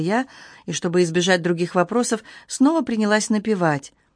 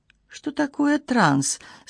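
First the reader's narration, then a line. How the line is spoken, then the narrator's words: Innocent questioning tone. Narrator (Russian): совершенно невинным тоном спросила я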